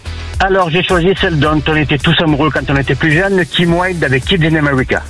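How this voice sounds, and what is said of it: Southern French accent. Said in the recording (French): “Avec l'accent méridional”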